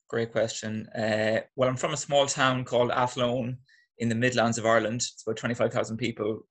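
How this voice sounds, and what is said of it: Irish accent. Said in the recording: “I can hear the Irish accent”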